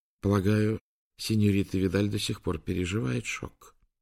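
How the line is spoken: Soothing tone. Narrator (Russian): успокаивающим тоном заметил Гарза

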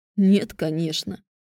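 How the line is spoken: Grim smirk. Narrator (Russian): мрачно усмехнулся Кай

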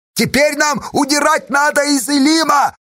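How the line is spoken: Shouting into ear. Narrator (Russian): прокричала Сташа в ухо Федька

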